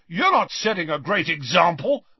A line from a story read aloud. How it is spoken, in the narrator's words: McLagan shouted back, red-faced and furious